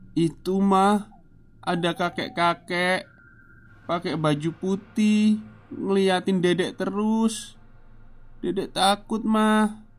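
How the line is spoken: Crying answer. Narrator (Indonesian): jawab Lili sambil menangis

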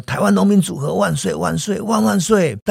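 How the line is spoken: Crowd chanting loudly. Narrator (Chinese): 大家跟着喊

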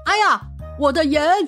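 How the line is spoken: Panicked shout. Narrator (Chinese): 一旁的商人惊慌大叫

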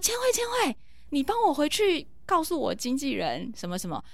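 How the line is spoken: Loud shout. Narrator (Chinese): 我就大叫说

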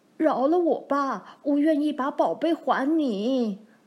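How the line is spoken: Pleading. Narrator (Chinese): 店老板哀求老公公说

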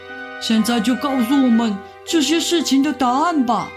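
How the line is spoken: Shouting. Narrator (Chinese): 亚明朝着里面大喊道

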